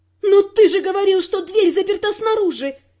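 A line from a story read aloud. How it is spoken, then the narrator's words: Shouting. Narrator (Russian): закричала на Виконта я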